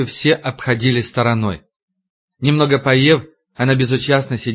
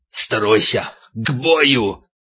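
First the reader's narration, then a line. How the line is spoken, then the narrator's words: Hissed command. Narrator (Russian): Дима прошипел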